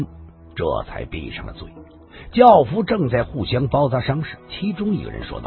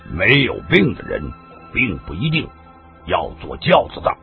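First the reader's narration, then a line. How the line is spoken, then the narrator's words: Cold. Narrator (Chinese): 常无意听了这句话，冷冷的说道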